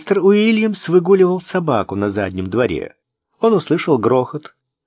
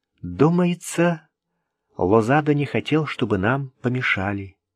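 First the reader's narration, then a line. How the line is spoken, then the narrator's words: Quiet remark. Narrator (Russian): тихо заметила она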